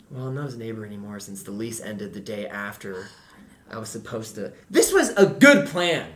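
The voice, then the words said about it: Raised, loud voice. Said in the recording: “raising my voice again”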